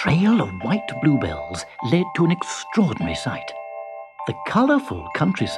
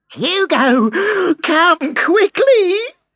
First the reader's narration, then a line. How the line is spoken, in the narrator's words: cried Belinda